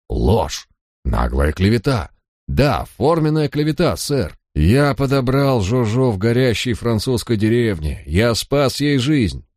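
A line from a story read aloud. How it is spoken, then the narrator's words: Indignant voice. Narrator (Russian): он возмущенным голосом произнес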